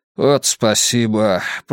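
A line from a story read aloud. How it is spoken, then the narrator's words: Mutter. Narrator (Russian): пробормотал бульдог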